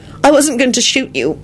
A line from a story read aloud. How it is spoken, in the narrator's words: she blurted out